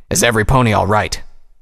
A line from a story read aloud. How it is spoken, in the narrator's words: He called out